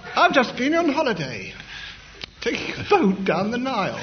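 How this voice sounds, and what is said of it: Put-on English accent. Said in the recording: “in an English accent, which he employed just this while”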